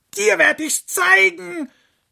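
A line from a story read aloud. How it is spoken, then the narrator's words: Fox shouting. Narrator (German): schrie der Fuchs die Sonne an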